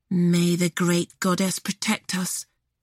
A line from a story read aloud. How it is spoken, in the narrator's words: Briar whispered